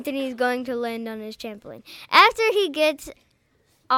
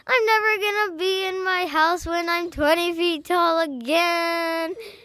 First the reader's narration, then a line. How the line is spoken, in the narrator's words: Anthony jumped out the window, and when he's jumping out the window, he yells